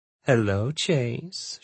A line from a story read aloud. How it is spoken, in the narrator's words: she purred